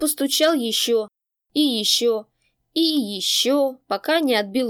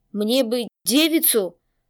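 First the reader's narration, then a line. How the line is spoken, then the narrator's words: Stunned forced words. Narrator (Russian): выдавил из себя ошарашенный Тэ, ибо рассчитывал на несколько иной прием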